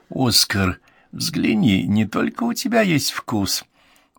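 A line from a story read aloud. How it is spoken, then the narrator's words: Whispered into ear. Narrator (Russian): он прошептал на ухо другу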